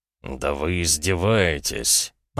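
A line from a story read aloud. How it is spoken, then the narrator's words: Growled. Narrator (Russian): прорычал он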